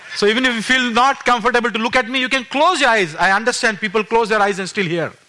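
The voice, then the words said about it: Speaks English with a noticeable accent. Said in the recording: “I have an accent which I cannot help... My accent is a bit here and there”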